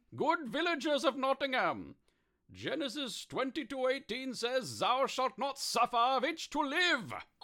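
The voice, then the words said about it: Bad fake German accent. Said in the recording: “Is that a German accent? ... That accent is no more German than a hamburger, which is to say, only to a statistical insignificant degree.”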